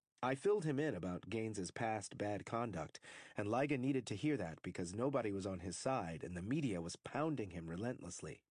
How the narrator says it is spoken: Poole said

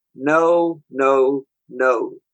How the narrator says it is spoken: said the master

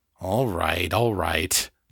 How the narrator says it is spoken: John grumbled

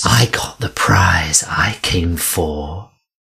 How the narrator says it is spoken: whispered, her lips at his cheek, her breath hot and stinging

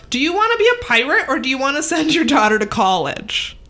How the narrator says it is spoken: John shouts

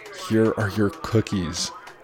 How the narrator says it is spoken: Amina says

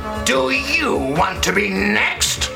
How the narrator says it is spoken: He snarled fiercely

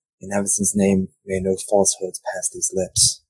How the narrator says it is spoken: mumbling

